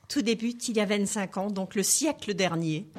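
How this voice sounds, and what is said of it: Alsatian French accent. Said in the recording (French): “ça s'entend, très joli accent ... l'accent alsacien”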